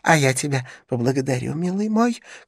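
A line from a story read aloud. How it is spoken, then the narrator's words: Shouting after someone. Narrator (Russian): кричал господин Галяткин вслед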